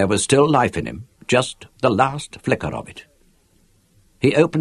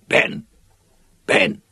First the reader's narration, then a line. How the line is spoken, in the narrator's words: whispered, choking with his own blood